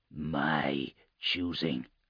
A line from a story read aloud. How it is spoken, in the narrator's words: Jinkar murmured